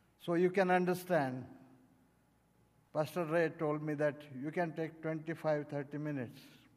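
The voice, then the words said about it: Accented English, spoken slowly. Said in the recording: “my accents, pronunciations, that's why I have to go very slowly. Means I have to speak very slow.”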